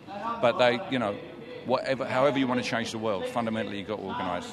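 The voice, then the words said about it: British accent. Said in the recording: “from the UK. From the accent, you could have picked it up.”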